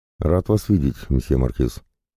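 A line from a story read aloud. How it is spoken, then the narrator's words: Warm, smiling. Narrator (Russian): ласково улыбнулся герцог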